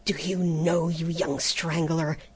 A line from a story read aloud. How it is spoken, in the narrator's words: he gasped